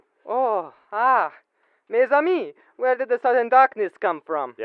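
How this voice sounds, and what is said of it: Put-on foreign dialect. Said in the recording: “you can drop the dialect, Crockett.”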